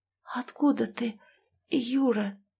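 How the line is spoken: Whisper. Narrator (Russian): прошептала я

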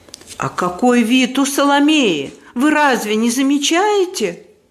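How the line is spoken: Angry shout. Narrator (Russian): злобно выкрикнула мадам Резо

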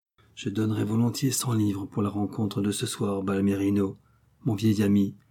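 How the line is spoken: Murmured. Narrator (French): murmura Darrell

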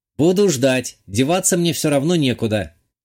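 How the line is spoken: Virtual assistant smirking. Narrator (Russian): хмыкнул виртуальный помощник

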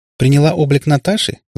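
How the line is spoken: Finishing, then laughing. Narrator (Russian): закончила за нее мама и рассмеялась

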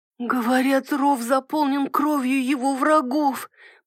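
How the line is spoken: Wheezing voice. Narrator (Russian): просипела Мэри

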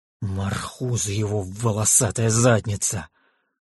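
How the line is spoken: Panicked hiss. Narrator (Russian): прошипел Кайфат, борясь с паникой

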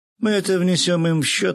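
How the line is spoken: Laughing. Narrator (Russian): рассмеялся я

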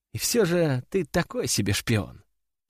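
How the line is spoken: Whispered in ear. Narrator (Russian): прошептала мне на ухо Катя

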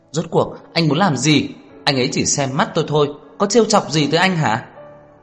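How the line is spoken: Frantic exasperated shout. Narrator (Vietnamese): thật muốn phát điên hét to

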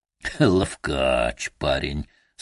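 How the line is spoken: Moaning. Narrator (Russian): стонал Заяц

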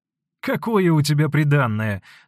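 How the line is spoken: Laughing. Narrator (Russian): смеясь сказал солдатке Никифор

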